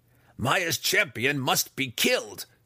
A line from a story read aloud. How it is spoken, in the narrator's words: Breeza snarled